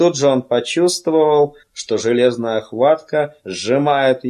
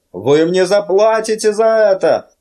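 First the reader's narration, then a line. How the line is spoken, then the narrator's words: Shout with a breaking voice. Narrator (Russian): крикнул он срывающимся голосом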